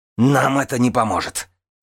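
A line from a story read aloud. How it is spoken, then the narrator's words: Barking. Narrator (Russian): рявкнула Нинавис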